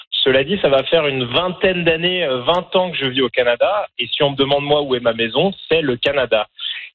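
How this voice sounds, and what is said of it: French accent from France. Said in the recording (French): “comme vous pouvez l'entendre, j'ai un accent qui n'est pas forcément l'accent de tous les franco-canadiens. Je suis originaire de France.”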